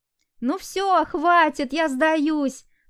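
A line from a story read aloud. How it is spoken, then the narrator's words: Sudden breathless shout. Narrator (Russian): выкрикнула вдруг запыхавшаяся Настя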